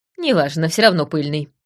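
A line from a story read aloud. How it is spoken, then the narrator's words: Dismissive snort. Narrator (Russian): хмыкнула я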